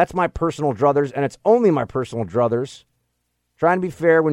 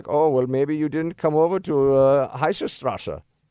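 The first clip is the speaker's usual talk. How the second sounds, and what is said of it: Mock German accent imitating Jung. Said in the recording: “That wasn't really German. It sounded kind of German. Close, close enough. ... it sounded German at the end.”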